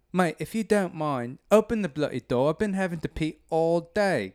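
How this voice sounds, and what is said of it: Put-on British accent. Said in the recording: “he has a British accent.”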